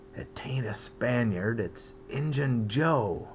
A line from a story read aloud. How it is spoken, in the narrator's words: Huck whispered in his ear